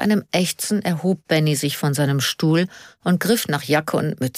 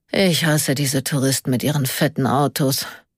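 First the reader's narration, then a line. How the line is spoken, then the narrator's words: Quiet murmur. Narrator (German): murmelte er leise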